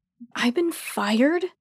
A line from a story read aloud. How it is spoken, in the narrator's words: I begin indignantly